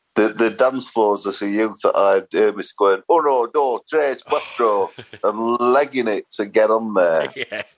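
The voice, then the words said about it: Generic northern English accent. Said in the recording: “my Sheffield accent's pretty much gone. I've just got a sort of generic northern accent now.”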